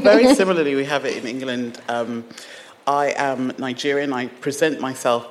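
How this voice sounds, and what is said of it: British accent. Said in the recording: “The only thing I think that's British about me is this accent.”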